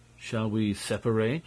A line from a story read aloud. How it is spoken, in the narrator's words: asked Beautrelet